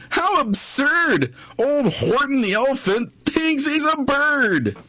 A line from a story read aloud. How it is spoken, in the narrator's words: They laughed, and they laughed